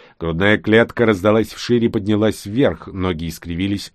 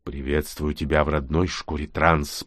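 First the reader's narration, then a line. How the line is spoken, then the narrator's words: Purring hiss. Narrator (Russian): промурлыкал, прошипел Нкот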